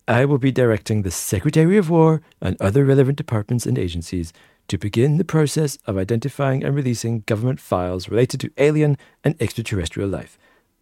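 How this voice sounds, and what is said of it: Poor Donald Trump impression. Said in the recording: “my terrible Trump impression ... Donald Trump into Randy Marsh and South Park ... Yeah, a bit South Park, wasn't it?”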